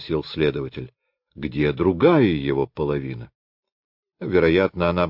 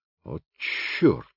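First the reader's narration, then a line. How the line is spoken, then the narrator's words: Through gritted teeth. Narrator (Russian): в третий раз процедил сквозь зубы Ганимар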